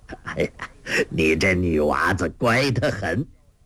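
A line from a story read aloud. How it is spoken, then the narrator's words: Hearty laughter. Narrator (Chinese): 那乞丐哈哈大笑说道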